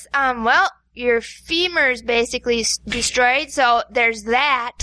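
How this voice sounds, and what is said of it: Sarcastic doctor impression. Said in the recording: “You'd be a sarcastic doctor ... Good impression of me ... as a doctor”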